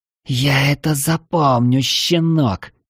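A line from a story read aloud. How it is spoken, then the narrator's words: Hoarse rasp. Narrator (Russian): прохрипела она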